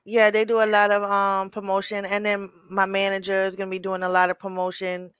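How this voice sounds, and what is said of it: New York accent. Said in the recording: “Then I heard your accent. It's like, oh, she's from New York. ... The accent throw you off because everybody from New York, like, they sound like they about to start rapping.”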